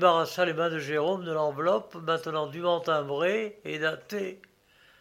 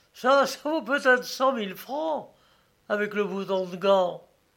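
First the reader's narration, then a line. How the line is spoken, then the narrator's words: Laughing reply. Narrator (French): répondit en riant le détective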